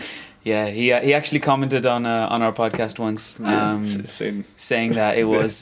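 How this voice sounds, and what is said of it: Usual voice. Nothing is said of it.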